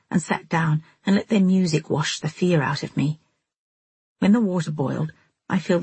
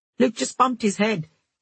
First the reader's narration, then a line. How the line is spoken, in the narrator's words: he shouted